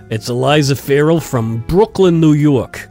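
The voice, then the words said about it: Put-on Brooklyn New York accent. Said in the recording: “this next one I have to say with an accent ... Well, that's well done.”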